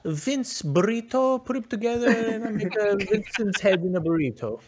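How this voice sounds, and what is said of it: Put-on accent, hard to place. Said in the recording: “I don't know what accent that was ... Shire folk.”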